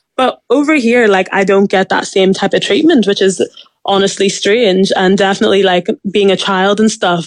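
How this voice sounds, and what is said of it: Mild Northern Irish accent. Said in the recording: “my accent isn't like super, super thick ... people automatically can just hear that I'm Irish”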